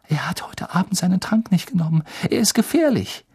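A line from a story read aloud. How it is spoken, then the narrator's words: Gasping. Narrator (German): japste Hermine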